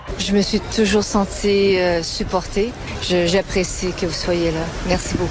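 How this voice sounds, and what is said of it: Her distinctive accent still present. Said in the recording (French): “l'accent est toujours là”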